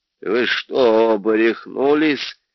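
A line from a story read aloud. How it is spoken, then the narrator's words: Lisping. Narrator (Russian): прошепелявил он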